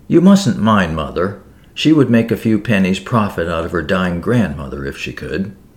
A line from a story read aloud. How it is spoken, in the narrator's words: remarking kindly